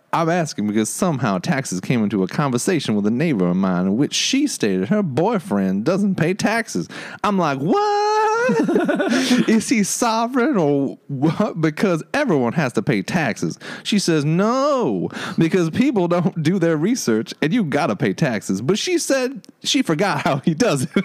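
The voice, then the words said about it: Put-on Southern twang. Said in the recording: “A southern twang on this one.”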